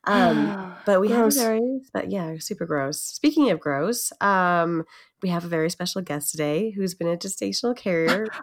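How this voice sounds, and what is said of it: Congested voice from a cold. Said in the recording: “I have a bit of a cold.”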